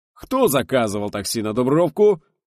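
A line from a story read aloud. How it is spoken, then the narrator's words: Loud cheerful boom. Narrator (Russian): весело грянул Крикалев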